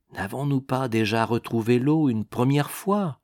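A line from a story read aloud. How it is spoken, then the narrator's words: Spoken very quietly. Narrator (French): fit-il tout bas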